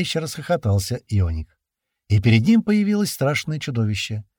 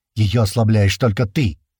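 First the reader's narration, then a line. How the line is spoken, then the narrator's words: Snapping retort. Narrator (Russian): огрызнулся сын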